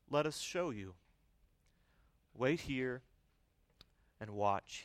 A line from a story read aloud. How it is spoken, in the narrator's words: said gently